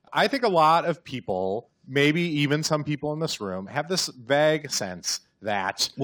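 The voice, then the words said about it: Midwestern American accent. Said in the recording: “Stop making fun of my Midwestern accent.”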